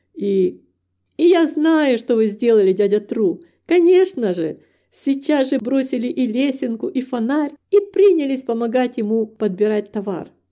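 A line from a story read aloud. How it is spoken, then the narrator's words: Laughing. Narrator (Russian): рассмеялся Вилли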